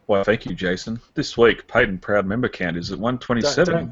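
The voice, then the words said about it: Sultry voice. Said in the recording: “do the sultry voice”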